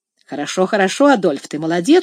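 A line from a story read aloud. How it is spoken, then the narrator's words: Casual joking tone. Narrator (Russian): сказал Сен-Клер своим обычным, небрежно шутливым тоном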